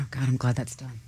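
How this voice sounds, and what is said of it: Whispering. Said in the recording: “Why is she still whispering?”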